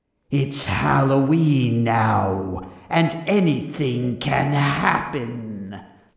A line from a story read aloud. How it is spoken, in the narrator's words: snarled Jack